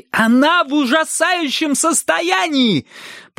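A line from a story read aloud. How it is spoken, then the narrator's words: Shout. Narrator (Russian): прокричал Бристоу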